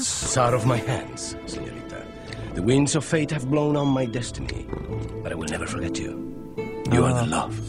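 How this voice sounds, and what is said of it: Spanish accent, Antonio Banderas. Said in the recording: “Antonio Banderas, known for that Spanish accent, for his role as Zorro”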